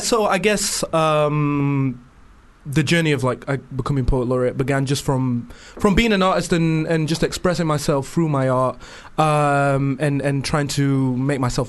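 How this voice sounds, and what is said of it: Northern English accent. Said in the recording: “It's nice to hear another accent... apart from a London accent on the show... I've got that northern twang... Sheffield”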